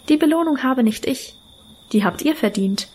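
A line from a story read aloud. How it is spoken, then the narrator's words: Calm. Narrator (German): sagte sie ruhig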